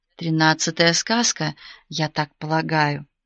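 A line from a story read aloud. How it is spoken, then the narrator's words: Sudden conspiratorial whisper. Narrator (Russian): неожиданно заговорщицки прошептал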